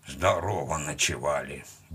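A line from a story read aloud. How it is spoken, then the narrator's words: Habitual mutter. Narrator (Russian): буркнул он по привычке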